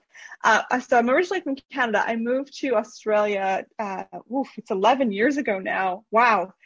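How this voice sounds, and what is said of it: Canadian accent. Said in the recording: “I'm originally from Canada, so that you, might hear my accent, so a little funny... The accent won't budge”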